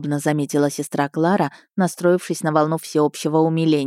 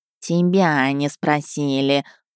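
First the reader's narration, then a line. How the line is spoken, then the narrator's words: Catlike snort. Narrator (Russian): фыркнул Котька, как настоящий кошак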